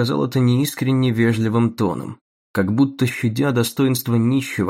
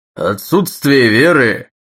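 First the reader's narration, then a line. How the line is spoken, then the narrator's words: Growling burly bully orator. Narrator (Russian): рычал на платформе тоном уличного задиры здоровенный оратор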